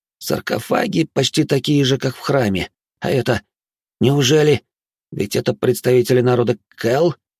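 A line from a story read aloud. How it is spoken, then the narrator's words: Apprehensive breathy exhale. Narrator (Russian): выдохнул Минос с опасением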